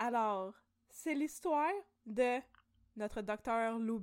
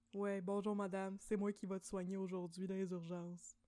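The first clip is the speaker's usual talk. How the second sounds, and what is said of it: Imitates another person's voice. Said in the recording (French): “c'est mon imitation de Lou obligatoire”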